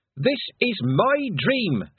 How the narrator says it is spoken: she shouted at the sky

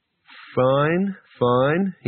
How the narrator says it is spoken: said slowly

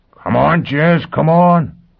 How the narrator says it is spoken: Foyle howled

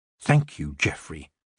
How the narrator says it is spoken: she said under her breath

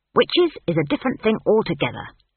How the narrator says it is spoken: snapped Granny Weatherwax

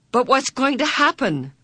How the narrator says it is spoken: Meg cried

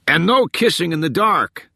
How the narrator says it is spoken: someone yelled

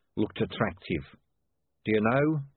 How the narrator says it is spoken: he added in a horrified voice

